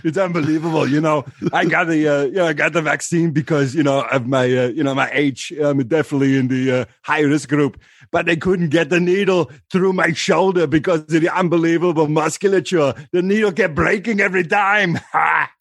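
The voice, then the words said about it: Arnold Schwarzenegger impression. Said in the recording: “do an impression, do fucking Arnold Schwarzenegger for that political crowd.”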